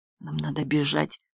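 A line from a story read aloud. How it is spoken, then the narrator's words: Whisper. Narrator (Russian): прошептал Владимир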